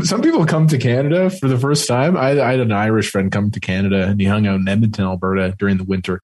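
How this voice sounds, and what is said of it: Canadian accent. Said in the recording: “you have such a Canadian accent.”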